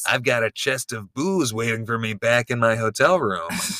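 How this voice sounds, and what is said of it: Weary, disgusted, drunken-sounding imitated voice. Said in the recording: “I can't do an accent, I've got to land on a Mark Austin impersonation. That's not just my own voice ... It just needs the right amount of weariness and disgust at where I currently find myself ... And drunkenness”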